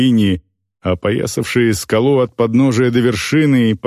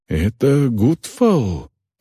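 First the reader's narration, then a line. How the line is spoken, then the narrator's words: Whispered. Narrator (Russian): прошептал Бьор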